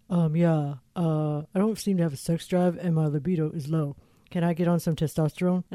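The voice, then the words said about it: Imitates a male caller's voice. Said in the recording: “your impression ... The guy calls and he's like”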